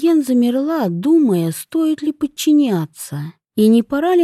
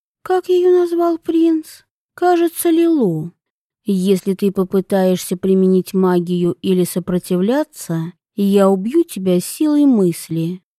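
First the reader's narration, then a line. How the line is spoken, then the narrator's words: Calm young woman. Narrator (Russian): спокойно произнесла девушка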